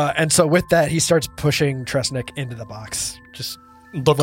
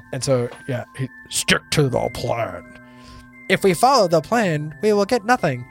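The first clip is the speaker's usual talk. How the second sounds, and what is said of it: Imitates other characters' voices. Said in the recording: “replay this in almost in their voices ... That's my impersonation of them.”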